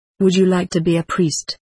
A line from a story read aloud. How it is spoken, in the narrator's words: he asked